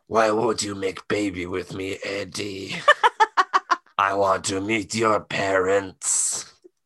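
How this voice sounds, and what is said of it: Imitates Venom character voice. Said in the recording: “my Venom impression, ... we is real good at impressions, Eddie.”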